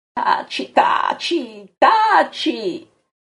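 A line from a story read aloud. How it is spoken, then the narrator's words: Yelling. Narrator (Italian): urla Pietro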